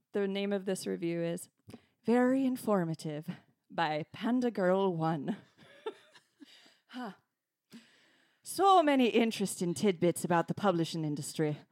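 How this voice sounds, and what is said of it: Put-on Irish accent. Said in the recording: “I'm going to read this in an Irish accent.”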